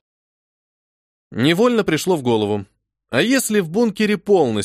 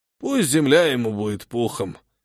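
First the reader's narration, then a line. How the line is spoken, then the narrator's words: Old man sighing. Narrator (Russian): вздохнул один из стариков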